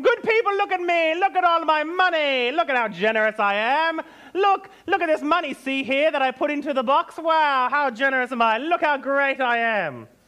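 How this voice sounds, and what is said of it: Boastful announcer character voice. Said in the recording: “announce your generosity with trumpets ... I'll do my best impression.”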